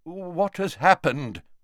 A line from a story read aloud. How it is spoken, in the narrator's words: asked Dumbledore